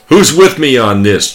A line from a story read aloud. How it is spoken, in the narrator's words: George shouts